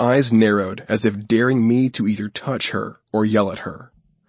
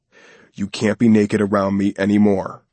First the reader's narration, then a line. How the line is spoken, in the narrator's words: I growled